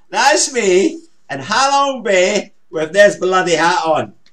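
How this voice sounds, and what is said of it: Loud shouting voice. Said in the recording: “Am I shouting? ... Yes. ... I'm shouting. It's too early to shout.”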